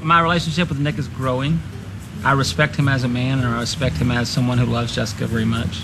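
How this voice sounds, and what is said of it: Slightly twangy voice. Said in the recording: “Kind of little twangy. ... It's a little twangy, but it's not as muppety”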